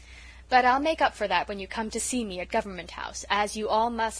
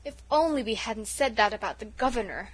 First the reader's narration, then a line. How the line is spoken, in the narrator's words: moaned Felicity